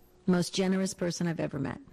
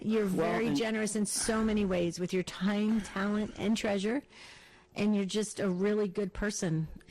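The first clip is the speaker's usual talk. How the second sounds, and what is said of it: Emotional, moved speaking voice. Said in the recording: “I don't know why I'm getting emotional”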